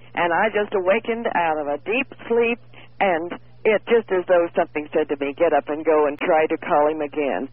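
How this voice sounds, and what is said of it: Congested, stuffy voice. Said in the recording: “I have a cold. ... I can hear you so well, I can even hear your cold.”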